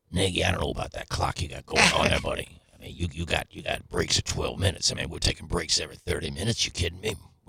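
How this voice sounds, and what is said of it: Imitates a radio DJ's voice. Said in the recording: “What do you think is your best impression? ... Maybe Smash. ... Smash as in Mark Milton's co-host and legendary DJ in St. Louis.”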